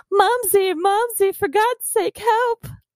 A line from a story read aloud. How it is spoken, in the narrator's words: Judd became terrified and let out a whining scream